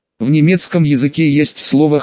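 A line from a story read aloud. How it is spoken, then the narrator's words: Soft, smiling. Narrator (Russian): мягко улыбнулась и сказала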